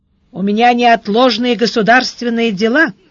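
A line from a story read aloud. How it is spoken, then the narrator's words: Metallic voice. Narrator (Russian): сказал Сварог металлическим голосом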